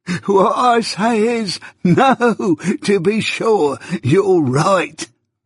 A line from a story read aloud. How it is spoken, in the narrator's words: pursued the old man, again laughing heartily